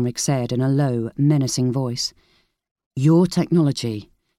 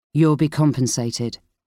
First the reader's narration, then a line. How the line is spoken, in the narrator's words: he said coldly